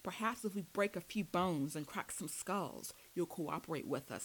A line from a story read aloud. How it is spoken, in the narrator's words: spat